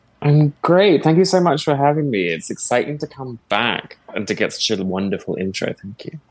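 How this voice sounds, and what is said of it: British accent. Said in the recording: “originally from the UK, so you might notice his accent isn't that of a Canadian”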